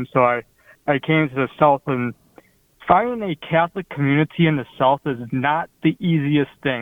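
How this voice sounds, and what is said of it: Midwestern American accent. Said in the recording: “as you can tell from my accent, I'm not from the South. I'm from the Midwest”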